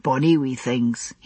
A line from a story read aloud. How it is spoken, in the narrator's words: he observed, and sighed with content